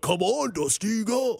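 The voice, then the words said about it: Poor imitation of other people's voices. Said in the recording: “terrible impersonation.”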